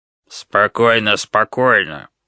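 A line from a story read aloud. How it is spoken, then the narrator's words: Growl. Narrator (Russian): прорычала туша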